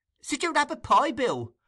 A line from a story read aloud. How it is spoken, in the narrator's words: exclaimed that young gentleman